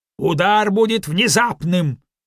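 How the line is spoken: Angry repetition. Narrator (Russian): сердито повторил Ньюстед

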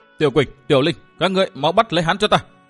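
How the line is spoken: Cold, vicious shout. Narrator (Vietnamese): khuôn mặt ... đột nhiên lộ vẻ độc hiểm, lạnh lùng hét lên

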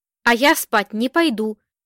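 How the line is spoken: Announced firmly. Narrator (Russian): решительным голосом объявил Вешний

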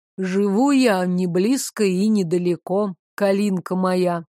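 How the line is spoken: Low, unsettling voice. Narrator (Russian): заговорил Девислав тем же низким голосом, от которого мне не по себе делалось

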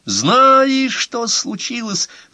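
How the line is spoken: Continued yelling. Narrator (Russian): продолжал вопить Агги, хотя Гомер стоял теперь совсем рядом с ним

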